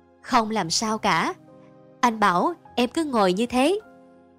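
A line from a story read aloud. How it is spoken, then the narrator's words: Calm, smiling. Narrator (Vietnamese): Vân mỉm cười, trả lời thong thả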